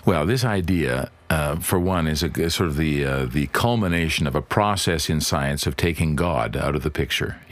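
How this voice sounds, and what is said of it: Accented English. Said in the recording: “such a beautiful accent and you speak so beautiful English”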